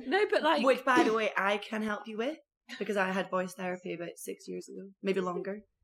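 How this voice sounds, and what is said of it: Slightly hoarse, croaky voice. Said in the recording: “my voice is a bit hoarse... Do you get a bit croaky?”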